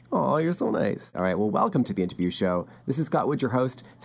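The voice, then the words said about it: Smooth tenor radio voice. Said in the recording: “You have such a radio voice. ... No, you have such a radio voice. Really smooth, like nice kind of tenor.”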